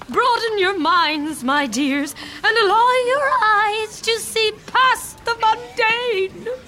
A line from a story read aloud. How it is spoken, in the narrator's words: Professor Trelawney cried through the gloom